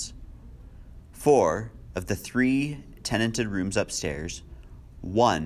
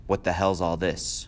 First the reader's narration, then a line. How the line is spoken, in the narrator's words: He said sharply